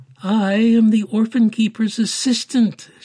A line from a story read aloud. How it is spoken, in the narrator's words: announced loudly, hoping everyone in the room would be impressed